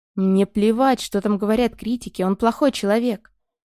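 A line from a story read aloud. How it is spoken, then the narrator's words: Loud, emotional mother. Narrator (Russian): мама говорила громко и с чувством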